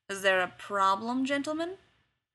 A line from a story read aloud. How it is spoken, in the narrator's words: another voice drawls